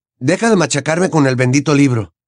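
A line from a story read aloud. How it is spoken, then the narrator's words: Snapped. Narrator (Spanish): le espetó Harry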